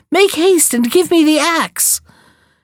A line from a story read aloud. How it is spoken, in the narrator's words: cried Jack